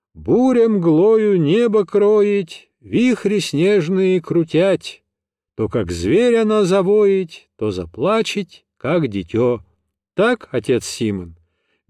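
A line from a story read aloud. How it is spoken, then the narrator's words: Cheerful distant shout. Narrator (Russian): весело крикнул из снега пчеловод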